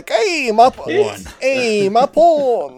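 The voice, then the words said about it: Put-on New Jersey accent. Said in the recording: “Joseph Gordon-Levitt's New Jersey accent is, like, directly just like an Unbreakable Kimmy Schmidt character.”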